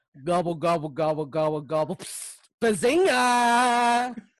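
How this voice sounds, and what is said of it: Sheldon impression. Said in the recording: “Can you do a Sheldon impersonation? ... Pretty good.”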